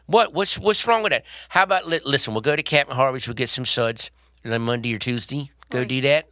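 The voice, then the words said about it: Put-on Baltimore accent. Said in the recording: “you do Baltimore ... you could do a good one ... it's got that Baltimore accent there, hon.”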